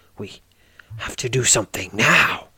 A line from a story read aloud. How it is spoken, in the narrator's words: she says, almost snarling the last word